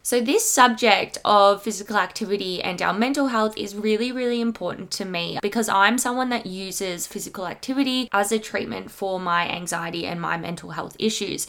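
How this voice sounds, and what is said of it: Congested, slightly breathless voice. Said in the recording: “I am feeling a little bit unwell today, so my voice is a little bit funny. I'm just a little bit clogged up. So if you do kind of hear me running out of breath”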